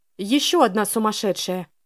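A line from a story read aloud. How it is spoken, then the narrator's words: Exclamation. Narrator (Russian): воскликнула Селена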